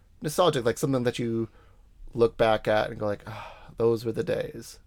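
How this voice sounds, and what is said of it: Boston accent. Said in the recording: “I have a Boston accent”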